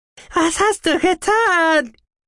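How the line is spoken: Shriek. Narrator (German): kreischte er

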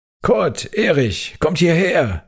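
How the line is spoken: Calling out. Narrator (German): rief ich den beiden Spielkameraden zu

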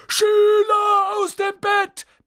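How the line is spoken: Bellowing. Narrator (German): brüllte Peeves

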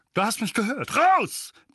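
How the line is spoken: Barking. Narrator (German): bellte Onkel Vernon

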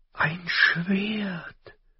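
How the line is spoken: Quiet breathless amazement. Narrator (German): staunte leise und atemlos

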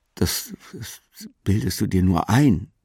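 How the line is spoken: Stammering. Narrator (German): Ich stammelte

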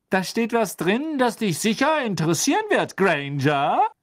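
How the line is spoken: Calling out. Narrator (German): rief Pansy

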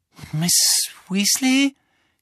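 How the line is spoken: Croaking. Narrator (German): krächzte Harry

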